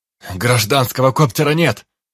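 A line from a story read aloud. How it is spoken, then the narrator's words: Yelled. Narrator (Russian): заорал Дид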